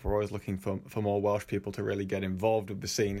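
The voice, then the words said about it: English accent. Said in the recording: “is that technically a Welsh accent from ...? Sounds English to me.”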